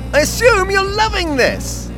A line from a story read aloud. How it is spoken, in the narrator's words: He yelled